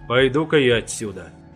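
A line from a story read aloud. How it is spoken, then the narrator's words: Muttered. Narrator (Russian): пробурчал я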